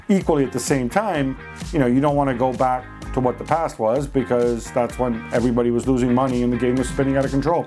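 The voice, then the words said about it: American accent. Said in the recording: “Why do you speak with an American accent? ... the reason I speak with an American accent is that I went to international schools and American schools”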